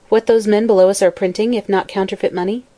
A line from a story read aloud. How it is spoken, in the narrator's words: she said somewhat coldly, for she felt she was suffering a professional rebuke